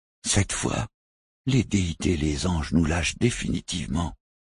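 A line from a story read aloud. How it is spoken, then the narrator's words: Pale breathless whisper. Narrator (French): souffla Quendael livide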